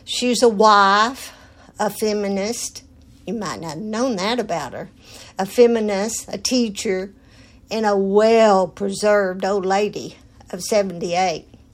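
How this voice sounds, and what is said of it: Texan accent. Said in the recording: “a married woman who has lived in Texas all her life. To prove that, just listen to her accent.”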